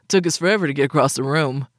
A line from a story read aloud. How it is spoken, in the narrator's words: Cyrus grumbled